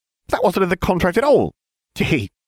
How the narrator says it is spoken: she cried

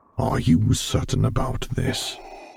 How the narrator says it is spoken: he murmured softly

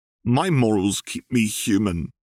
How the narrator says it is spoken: Caitlin replied stiffly

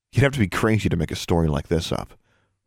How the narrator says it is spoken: she muttered

